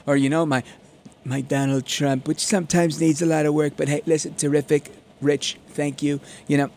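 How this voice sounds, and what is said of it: Usual voice. Nothing is said of it.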